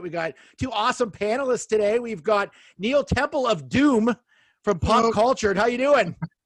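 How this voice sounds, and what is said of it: Yelling, loud excited voice. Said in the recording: “I don't know why I'm yelling at you as if you're like, I'm trying to reach you at your house.”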